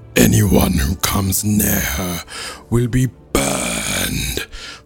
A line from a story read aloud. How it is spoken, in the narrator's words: Fire roared again